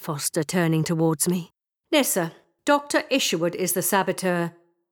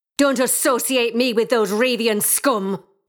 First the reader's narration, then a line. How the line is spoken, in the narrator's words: she snapped